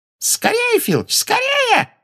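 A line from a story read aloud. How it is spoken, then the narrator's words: Shrill squeal. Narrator (Russian): взвизгнула Амбридж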